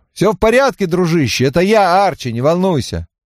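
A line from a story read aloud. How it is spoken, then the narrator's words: Shouting. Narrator (Russian): Я крикнул ему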